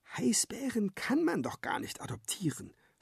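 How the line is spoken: Whispering in ear. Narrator (German): flüstert Lola Papa ins Ohr

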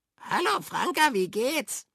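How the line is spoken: Croaking voice. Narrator (German): krächzte es daneben Käpt'n Frank

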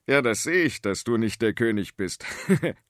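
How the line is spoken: Farmer laughing. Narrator (German): lachte der Bauer

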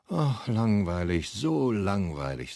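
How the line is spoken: Sighing. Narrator (German): seufzt

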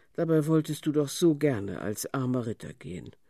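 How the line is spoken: Sighing, mother. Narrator (German): seufzte Mama

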